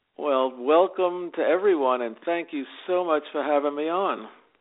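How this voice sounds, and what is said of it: Jersey City New York accent. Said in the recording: “Oh, I love your accent. ... this is the Jersey City, New York accent that I refuse to lose.”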